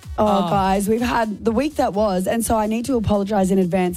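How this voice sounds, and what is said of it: Very hoarse voice. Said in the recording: “My voice is very hoarse”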